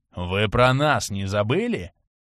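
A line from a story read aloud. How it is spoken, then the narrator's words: Polite growl. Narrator (Russian): вежливо рыкнул подошедший вплотную Ренокс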